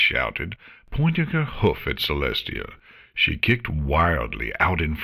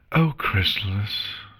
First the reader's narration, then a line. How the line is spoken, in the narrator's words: Celestia sighed